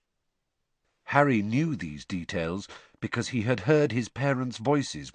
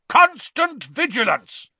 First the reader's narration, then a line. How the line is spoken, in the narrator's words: He roared